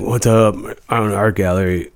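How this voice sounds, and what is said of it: Imitates another person's voice. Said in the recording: “Impersonations I could do.”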